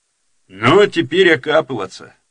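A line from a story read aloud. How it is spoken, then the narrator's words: Dull, faded voice. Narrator (Russian): потускневшим голосом сказал Батурин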